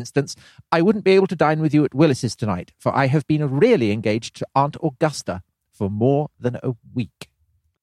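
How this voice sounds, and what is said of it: Affected, effete upper-class theatrical voice. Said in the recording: “one of the ripest performances ... With your affected accent. ... Indeed, effete tones.”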